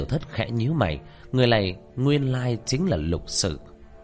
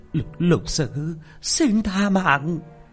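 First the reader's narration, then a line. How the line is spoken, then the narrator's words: Frightened shouting. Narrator (Vietnamese): Quỷ kiểm bà mặt sợ hãi la lên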